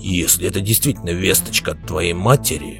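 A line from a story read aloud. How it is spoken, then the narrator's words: Growl. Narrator (Russian): прорычал Белвар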